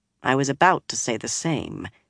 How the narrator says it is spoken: she said in a flat voice

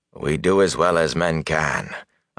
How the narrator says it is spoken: Agomar said dryly

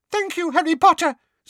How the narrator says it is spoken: squeaked Dobby

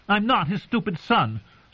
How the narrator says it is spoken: said Arya furiously

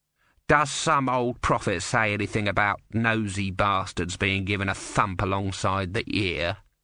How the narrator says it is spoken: said the soldier

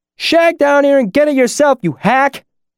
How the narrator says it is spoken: the voice shouted up from the basement

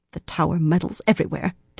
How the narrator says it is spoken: Tenobia muttered

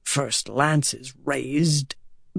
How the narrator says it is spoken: Bashir said under his breath

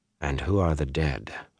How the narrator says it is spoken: Bornhald asked quietly

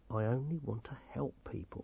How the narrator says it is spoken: he said quietly

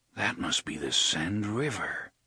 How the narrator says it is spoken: he said in a low voice

